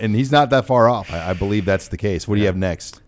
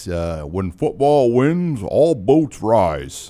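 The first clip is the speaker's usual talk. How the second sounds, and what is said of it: Imitates another person's voice. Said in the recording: “in my best Bill Moose impersonation.”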